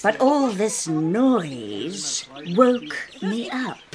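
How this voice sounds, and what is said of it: Big rumbling crocodile voice. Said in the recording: “Crocodile rumbled in her big voice.”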